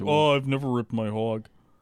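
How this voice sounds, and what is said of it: Imitates another person's voice. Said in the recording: “you do a good impression.”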